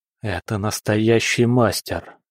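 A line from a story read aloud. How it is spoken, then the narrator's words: Quiet. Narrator (Russian): тихо сказал Синде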